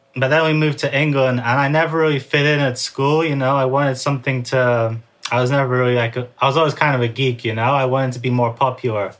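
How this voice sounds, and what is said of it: Hard-to-place, unusual accent. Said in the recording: “as you can tell from my accent, like, it's kind of hard to place me anywhere ... I learned English in America from Teenage Mutant Ninja Turtles. That's why my accent's a little bit strange.”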